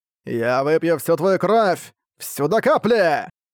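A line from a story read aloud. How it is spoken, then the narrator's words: Monster's guffawing. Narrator (Russian): Снова захохотало чудище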